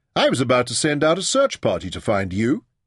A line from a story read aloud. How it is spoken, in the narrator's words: he called cheerfully